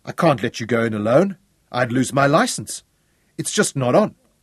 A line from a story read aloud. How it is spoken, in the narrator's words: the hunter protested quickly